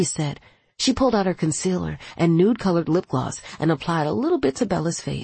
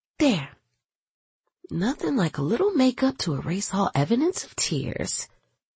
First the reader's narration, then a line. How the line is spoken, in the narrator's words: Alani said